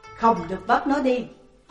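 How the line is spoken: Shout. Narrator (Vietnamese): nhìn Tùng Liên quát lên

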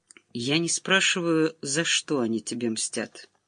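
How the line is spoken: Low, almost indifferent. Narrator (Russian): произнесла вполголоса и почти равнодушно

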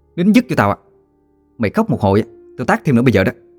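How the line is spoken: Angry yelling. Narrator (Vietnamese): quát tháo

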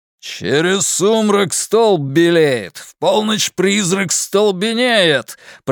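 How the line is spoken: Thundering. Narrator (Russian): прогремел Билл

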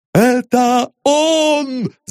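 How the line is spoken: Shout. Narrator (Russian): закричал одноглазый

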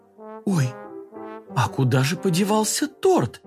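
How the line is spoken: Mother's disbelieving exclamation. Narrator (Russian): воскликнула мама не веря своим глазам

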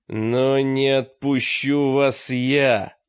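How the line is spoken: Mage, strengthened voice. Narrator (Russian): ответил маг окрепшим голосом

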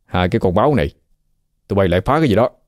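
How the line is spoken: Young man growling. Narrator (Vietnamese): Miệng anh chàng gầm gừ

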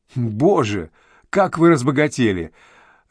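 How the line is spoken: Laughing. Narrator (Russian): рассмеялась Зорина

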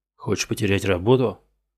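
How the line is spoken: Hiss. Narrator (Russian): прошипел

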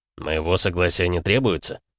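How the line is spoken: Tired question. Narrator (Russian): устало спросил Максуд

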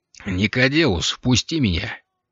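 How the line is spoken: Quiet speech. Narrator (Russian): негромко произнес Алири

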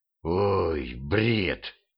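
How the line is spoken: Exhaled, devil. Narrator (Russian): выдохнул дьявол

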